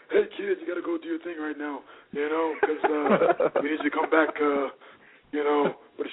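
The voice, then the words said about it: Imitates another person's voice. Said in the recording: “that's Johnny's voice ... That's an amazing impersonation of him. ... Wow, that was good.”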